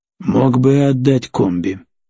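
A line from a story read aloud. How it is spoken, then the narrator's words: Grumbling. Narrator (Russian): проворчал визирь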